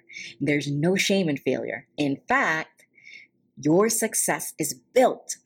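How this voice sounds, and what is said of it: Whispering. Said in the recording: “why I'm whispering”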